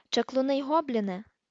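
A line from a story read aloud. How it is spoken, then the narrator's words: Said quietly. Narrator (Ukrainian): тихо сказав Грипхук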